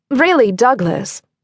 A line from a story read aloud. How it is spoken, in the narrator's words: Veronica Sloane called out